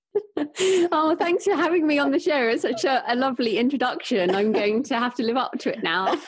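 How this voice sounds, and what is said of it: British accent. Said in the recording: “she's got a beautiful British accent.”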